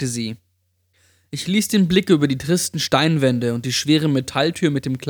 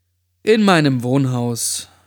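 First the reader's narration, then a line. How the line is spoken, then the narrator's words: Sigh. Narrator (German): seufzte ich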